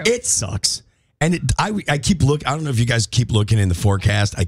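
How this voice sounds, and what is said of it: Cracked, hoarse voice. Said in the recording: “my voice is still ... cracked.”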